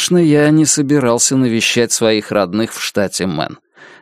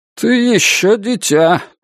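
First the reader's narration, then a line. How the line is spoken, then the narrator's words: Displeased grumble. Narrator (Russian): недовольно пробурчал он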